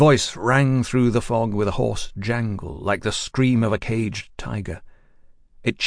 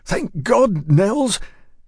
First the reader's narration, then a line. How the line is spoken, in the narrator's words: Yancey called out shrilly